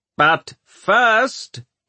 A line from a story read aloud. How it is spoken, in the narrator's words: he shouted